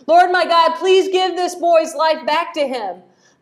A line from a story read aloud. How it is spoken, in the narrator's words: cried out to the Lord